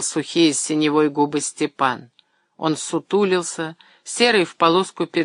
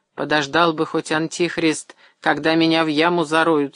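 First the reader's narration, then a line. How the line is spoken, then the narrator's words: Plain. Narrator (Russian): сказал Степан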